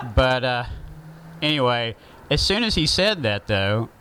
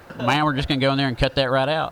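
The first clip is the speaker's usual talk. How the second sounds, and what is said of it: Heavy Southern accent. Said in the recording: “saying anything with a heavy Southern accent”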